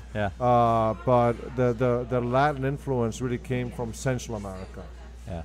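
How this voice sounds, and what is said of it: Slight foreign accent. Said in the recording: “We can hear a little bit of an accent.”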